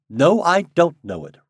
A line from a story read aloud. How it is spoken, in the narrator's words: replied Steve curtly